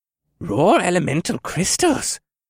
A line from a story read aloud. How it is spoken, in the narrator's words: Becklin gasped